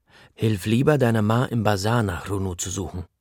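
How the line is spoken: Plain. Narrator (German): sagt Papa

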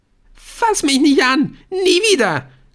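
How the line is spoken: Shrieking. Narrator (German): kreischte Aisha

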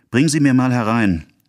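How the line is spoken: Called out. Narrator (German): rief sie dem Mädchen zu

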